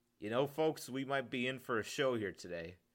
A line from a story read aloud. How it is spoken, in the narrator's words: Chris chuckled